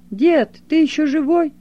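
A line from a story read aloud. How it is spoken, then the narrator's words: Shout. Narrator (Russian): Толик и тут крикнул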